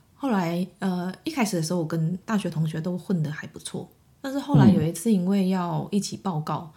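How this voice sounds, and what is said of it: Malaysian-accented Mandarin. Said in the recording (Chinese): “因为我是马来西亚人嘛...因为我讲话有口音啊”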